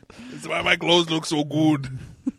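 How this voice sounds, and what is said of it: Imitates another person's voice. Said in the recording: “These are the worst Arnold impressions ever... But it still sounds like Arnold... Everyone knows it's Arnold.”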